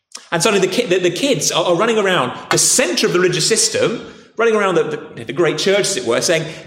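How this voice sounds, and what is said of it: Posh English accent. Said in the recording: “if you've got a posh accent like me”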